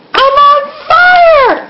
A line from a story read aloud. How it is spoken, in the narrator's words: Charlie screamed